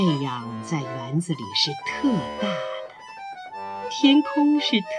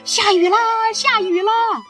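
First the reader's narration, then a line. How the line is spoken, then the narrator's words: Shouting with full force. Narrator (Chinese): 拼尽了力气，大喊着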